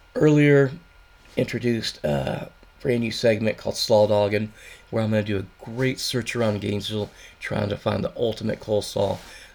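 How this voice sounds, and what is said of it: Strained, failing voice. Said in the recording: “my voice is going again”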